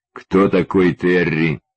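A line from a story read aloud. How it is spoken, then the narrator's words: Stony questioning tone. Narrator (Russian): Каменным тоном спросил я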